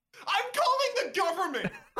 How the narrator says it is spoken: You shout

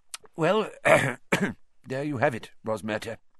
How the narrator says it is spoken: said Fudge thickly

